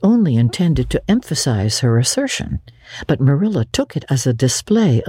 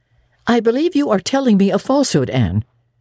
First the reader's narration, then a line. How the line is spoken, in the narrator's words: said sharply